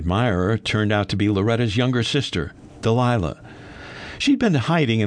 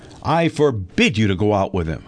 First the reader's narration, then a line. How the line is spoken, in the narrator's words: The fury in Loretta's voice was evident as she snapped